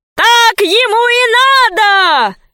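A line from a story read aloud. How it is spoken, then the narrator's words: Crowd shouting. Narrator (Russian): кричали люди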